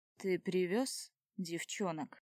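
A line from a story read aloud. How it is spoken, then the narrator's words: Familiar husky baritone. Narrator (Russian): из-за одной двери раздается знакомый баритон с хрипотцой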